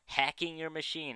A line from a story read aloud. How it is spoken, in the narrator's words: said happily